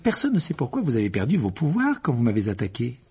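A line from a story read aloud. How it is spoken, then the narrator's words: Abrupt tone. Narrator (French): dit Harry d'un ton abrupt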